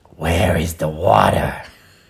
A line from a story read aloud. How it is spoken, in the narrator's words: The chicken took a deep breath, grunted, said in a small, raspy voice